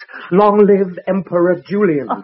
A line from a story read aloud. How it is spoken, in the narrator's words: shouted